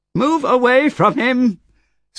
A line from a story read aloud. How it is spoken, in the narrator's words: screamed, racing forward